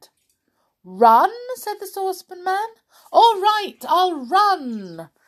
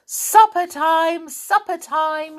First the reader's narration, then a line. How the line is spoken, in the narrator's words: shouted Moonface suddenly